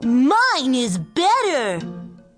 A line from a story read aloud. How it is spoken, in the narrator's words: Oliver shouted